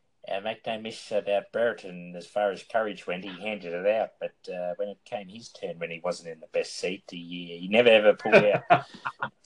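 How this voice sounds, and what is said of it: Bobby Davis impersonation. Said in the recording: “That's more a Bobby Davis impersonation”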